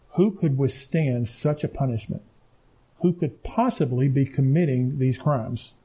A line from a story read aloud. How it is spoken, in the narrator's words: The people began to murmur among themselves